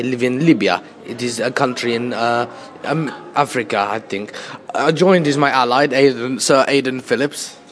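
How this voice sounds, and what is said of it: Gaddafi impression, slightly Russian accent. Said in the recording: “doing the accents ... This is not even an African accent ... No, it's Russian ... It is slightly Russian ... Mr. Gaddafi”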